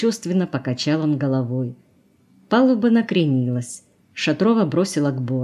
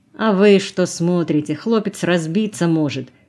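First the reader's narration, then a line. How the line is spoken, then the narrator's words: Young man grumbling. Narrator (Russian): проворчал парень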